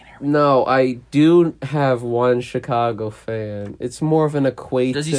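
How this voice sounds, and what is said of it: Usual voice. Nothing is said of it.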